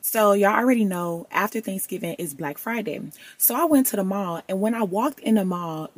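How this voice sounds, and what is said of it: Hoarse, nearly lost voice. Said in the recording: “I barely got a voice ... the voice is not voicing ... as you can tell by my voice, it got a little ghetto”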